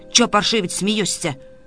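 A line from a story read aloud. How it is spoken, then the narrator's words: Angry spluttering shout. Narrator (Russian): плевался и кричал на Илью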